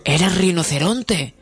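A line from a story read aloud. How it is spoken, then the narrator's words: Exclaimed. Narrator (Spanish): exclamé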